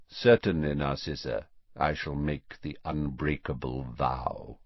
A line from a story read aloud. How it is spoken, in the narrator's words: he said quietly